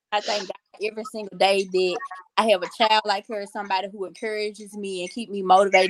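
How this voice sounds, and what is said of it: Noticeable regional accent. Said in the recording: “I love your accent, by the way... Everybody always talk about my accent.”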